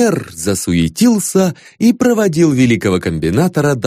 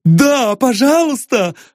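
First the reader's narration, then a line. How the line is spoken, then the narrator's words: Exclaimed. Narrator (Russian): воскликнул Эрнест Павлович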